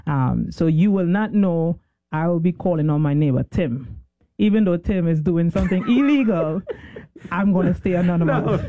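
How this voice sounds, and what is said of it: Trinidadian accent. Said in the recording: “obviously you hear an accent. Where are you from? ... Trinidad.”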